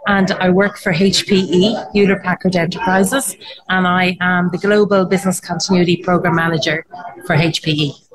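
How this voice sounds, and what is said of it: Irish accent. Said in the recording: “I'm located in Ireland, hence the accent.”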